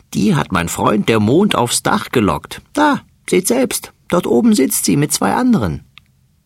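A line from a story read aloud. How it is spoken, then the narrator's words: Laughing fat mouse. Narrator (German): lacht der dicke Mäuserich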